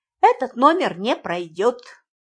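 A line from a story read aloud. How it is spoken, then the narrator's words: Sharp declaration. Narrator (Russian): резко заявила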